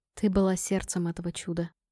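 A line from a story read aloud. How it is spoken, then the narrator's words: Soft. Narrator (Russian): мягко сказал он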